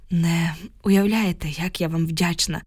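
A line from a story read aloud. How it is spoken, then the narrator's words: Sighing, holding back tears. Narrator (Ukrainian): зітхнула я, ледве стримуючи сльози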